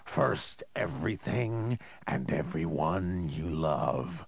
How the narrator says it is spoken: the vagrant snarled

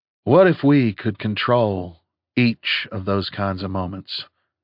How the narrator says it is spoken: He asked calmly

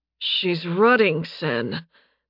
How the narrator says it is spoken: Nathan groaned out

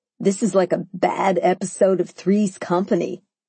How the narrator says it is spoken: chuckled

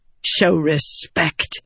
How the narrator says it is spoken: Venli snapped

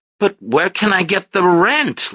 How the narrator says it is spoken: Lefty finally blurted out

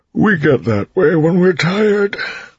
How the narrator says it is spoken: Breeze said with a yawn

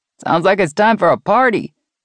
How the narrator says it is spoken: a male voice shouted

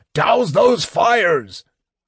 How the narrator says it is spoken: Otik was yelling wildly

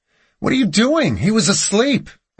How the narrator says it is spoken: I yelled

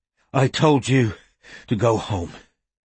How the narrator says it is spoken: he panted

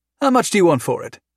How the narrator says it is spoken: Valda said immediately, eagerly

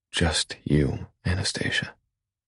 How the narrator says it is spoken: I whisper

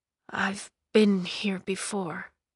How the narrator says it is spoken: he muttered

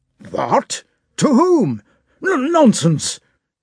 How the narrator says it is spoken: cried the count, suddenly reddening with an apoplectic flush over neck and nape, as old people do

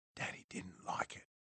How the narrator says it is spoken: she whispered

